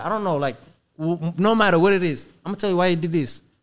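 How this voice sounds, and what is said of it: Noticeable foreign accent. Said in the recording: “the client is laughing at me because my accent.”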